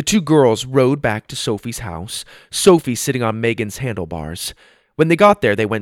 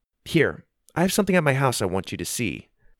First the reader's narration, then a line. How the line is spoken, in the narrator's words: said